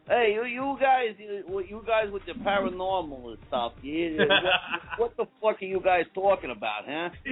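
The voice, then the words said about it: Put-on Brooklyn accent. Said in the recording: “I can actually do a pretty good impression. I can actually do a pretty good Brooklyn accent. ... You sound like Bruce Tango”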